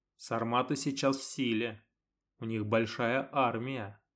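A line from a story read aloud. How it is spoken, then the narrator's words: Plain. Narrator (Russian): ответил вождь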